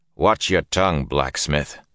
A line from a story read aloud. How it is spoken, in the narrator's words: Lan growled, all ice and stone